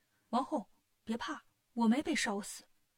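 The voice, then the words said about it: Quiet, hushed whispering voice. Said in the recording (Chinese): “小声”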